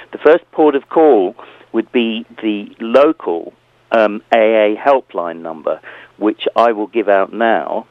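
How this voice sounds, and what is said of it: Hoarse, croaky voice. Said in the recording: “excuse me, I've got a frog in my throat.”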